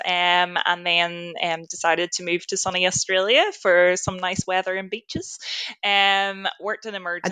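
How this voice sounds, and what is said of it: Irish accent. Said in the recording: “I have a bit of an accent. So I'm originally from Ireland”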